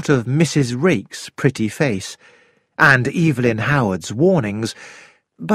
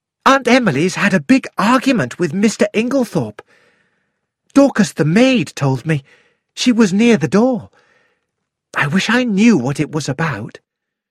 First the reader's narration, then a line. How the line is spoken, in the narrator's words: Cynthia said excitedly